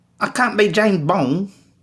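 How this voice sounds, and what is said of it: Cockney accent, imitating Aaron Taylor-Johnson. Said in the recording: “If he just cleaned up that accent a little bit... Too Cockney”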